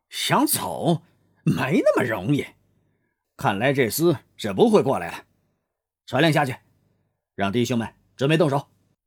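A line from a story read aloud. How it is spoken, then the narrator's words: Teeth-gritted cursing. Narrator (Chinese): 王天龙 咬牙切齿的骂道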